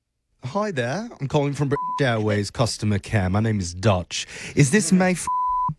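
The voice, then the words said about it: Deliberately bad British accent. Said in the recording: “my absolute worst British accent”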